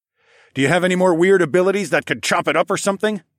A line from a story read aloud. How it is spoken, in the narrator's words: I shouted over the wind